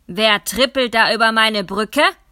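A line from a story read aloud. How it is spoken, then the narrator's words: Troll roaring. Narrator (German): brüllte der Troll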